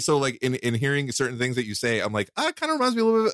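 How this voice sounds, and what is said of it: American accent. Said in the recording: “American accent. That's what I hear.”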